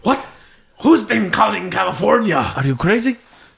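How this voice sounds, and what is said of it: Put-on accent, attempted Spanish. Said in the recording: “I don't know what accent that was, but definitely wasn't a fucking Spanish accent.”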